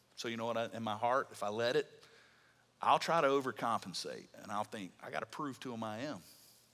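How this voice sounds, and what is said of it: Southern US accent, Alabama. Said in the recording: “You're from Alabama, you got a southern accent”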